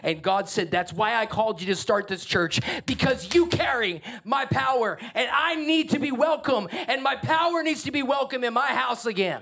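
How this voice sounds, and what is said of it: Yelling, loud impassioned preaching. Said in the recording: “Why am I yelling?”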